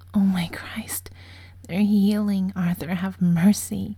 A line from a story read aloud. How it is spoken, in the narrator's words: he gasps